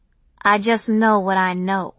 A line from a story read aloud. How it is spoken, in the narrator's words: Malaika replied sullenly